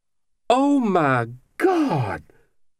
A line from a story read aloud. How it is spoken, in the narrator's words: She exclaimed, hand over her mouth